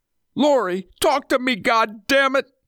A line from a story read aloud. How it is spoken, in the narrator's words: screamed, desperate to hear his wife's voice